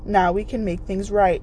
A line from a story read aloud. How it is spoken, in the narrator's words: Gretel's voice trembled when she said